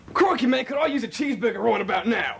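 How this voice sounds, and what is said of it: Put-on Australian accent. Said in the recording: “he can talk in any accent, in anything ... let's hear you say, "Hi there, I'd like a cheeseburger in Australian."”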